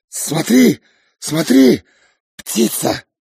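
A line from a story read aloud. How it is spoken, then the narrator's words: Sudden wild anxious shout. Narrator (Russian): неуверенно, с тревогой, вдруг, дико закричал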